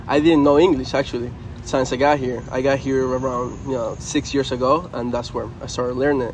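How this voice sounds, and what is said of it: Slight Venezuelan Spanish accent. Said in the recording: “I have a little bit of the accent”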